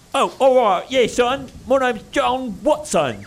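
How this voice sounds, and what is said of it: Hip old-timey British accent. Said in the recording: “a hipper British accent? ... Like, still old-timey British accent, but a little more hip.”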